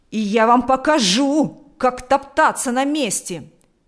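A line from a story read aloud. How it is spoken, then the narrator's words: Shouting. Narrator (Russian): закричал он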